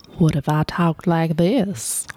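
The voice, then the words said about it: Put-on Southern drawl. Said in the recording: “My southern drawl. ... Did you just combine Homer being sexy in the bed with your”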